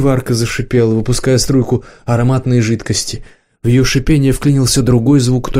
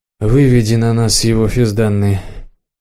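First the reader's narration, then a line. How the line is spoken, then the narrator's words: Tired. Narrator (Russian): устало сказал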